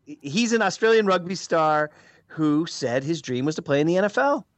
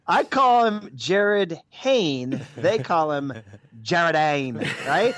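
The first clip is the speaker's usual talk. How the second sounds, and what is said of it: Fairly good put-on Australian accent. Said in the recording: “That's actually a pretty good Australian accent, I have to say. That could have gone a lot worse.”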